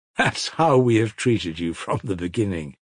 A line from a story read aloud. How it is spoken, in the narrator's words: said Nikolai Parfenovich, still laughing